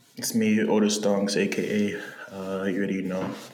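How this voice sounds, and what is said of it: Whispering. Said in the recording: “Why are you whispering?”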